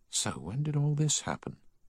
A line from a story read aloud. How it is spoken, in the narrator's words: he whispered